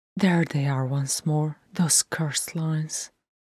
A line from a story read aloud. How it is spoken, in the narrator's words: said softly to herself